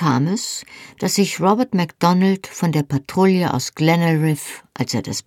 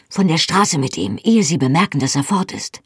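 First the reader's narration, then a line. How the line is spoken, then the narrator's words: Whisper. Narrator (German): flüsterte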